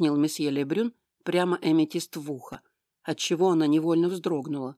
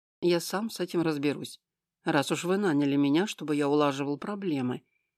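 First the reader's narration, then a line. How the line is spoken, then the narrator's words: Softer. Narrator (Russian): продолжил он более мягко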